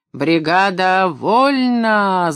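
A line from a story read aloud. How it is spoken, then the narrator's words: Booming shout. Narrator (Russian): заорал зев зычным голосом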